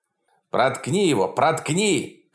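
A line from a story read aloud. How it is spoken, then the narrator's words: Shouting from the side. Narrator (Russian): кричал Дальярд сбоку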